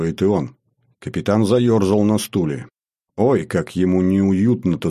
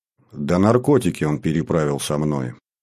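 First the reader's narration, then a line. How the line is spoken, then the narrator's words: Tired. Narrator (Russian): устало проговорил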